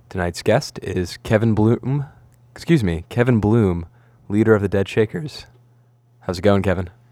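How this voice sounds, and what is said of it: Soothing, silky smooth radio voice. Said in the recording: “You've got such a soothing radio voice. ... It was just silky smooth.”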